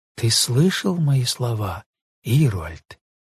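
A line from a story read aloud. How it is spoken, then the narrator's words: Quiet, ashamed question. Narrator (Russian): Стыдно стало Велге, что он не ответил ей, и она спросила его тихо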